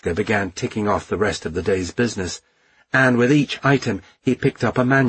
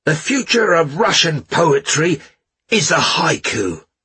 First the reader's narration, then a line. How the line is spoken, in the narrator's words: Mishka shouted in conclusion